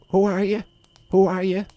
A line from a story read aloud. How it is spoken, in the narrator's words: the Jackdaw croaked